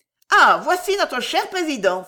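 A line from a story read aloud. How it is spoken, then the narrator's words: Exclaiming noblewoman. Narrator (French): s'écria la marquise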